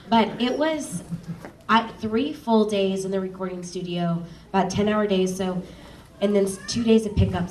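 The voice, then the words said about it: Southern accent. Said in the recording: “the Southern accent coming out”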